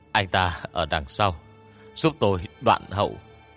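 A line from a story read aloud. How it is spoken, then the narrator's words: Breathless, panting. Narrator (Vietnamese): Hoàng Nhiên thở hổn hển nói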